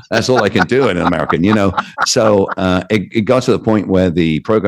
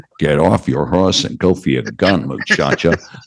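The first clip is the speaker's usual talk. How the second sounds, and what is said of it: Poor John Wayne-style American accent. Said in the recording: “I'm crap at doing an American accent ... I end up sounding like John Wayne”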